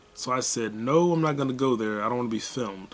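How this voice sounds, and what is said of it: Deeper, very clear, serious character voice. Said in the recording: “my own version of Omni-Man. Like, I'm speaking in a deeper tone, super clear. Like, I'm fucking serious.”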